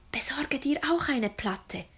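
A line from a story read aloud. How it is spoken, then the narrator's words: Whispered. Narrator (German): wisperte sie ihrem Bruder zu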